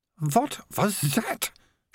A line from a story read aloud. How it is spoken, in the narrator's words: she hissed, as she felt something slide down her skirt